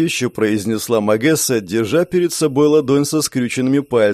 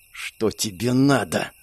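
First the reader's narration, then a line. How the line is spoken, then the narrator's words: Hissed. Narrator (Russian): прошипела охотница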